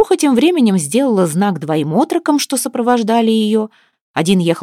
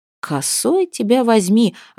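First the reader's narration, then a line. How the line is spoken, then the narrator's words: Stunned mutter. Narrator (Russian): ошарашенно пробормотал Гостемил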